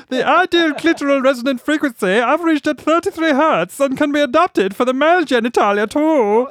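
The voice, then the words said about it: Reads in a put-on accent. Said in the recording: “That accent definitely works well with this story ... Anything sexual, do it in that voice.”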